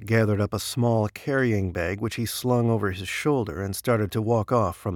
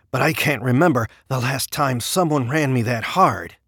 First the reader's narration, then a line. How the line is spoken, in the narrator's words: Feras began, also panting heavily